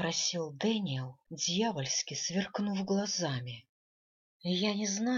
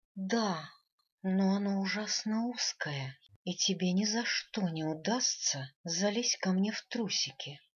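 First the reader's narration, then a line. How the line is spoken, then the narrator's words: Moaning. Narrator (Russian): простонала я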